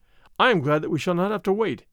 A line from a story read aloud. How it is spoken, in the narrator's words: replied my father